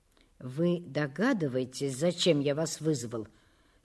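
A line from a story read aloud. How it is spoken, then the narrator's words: Weak elderly voice. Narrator (Russian): спросил директор, пожилой, с ватным, слабым голосом человек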